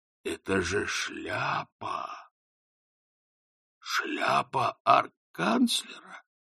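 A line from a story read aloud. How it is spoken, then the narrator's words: Hoarse. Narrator (Russian): хрипло выговорил Ринсвинд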